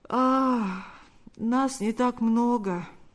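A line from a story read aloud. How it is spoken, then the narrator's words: Sleepy reply. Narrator (Russian): ответил тот немного сонным голосом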